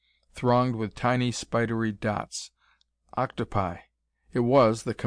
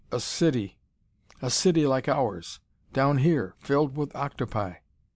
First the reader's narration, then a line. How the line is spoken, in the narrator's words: the first officer exclaimed